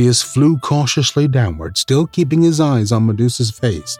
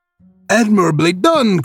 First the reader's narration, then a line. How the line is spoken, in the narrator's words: cried Quicksilver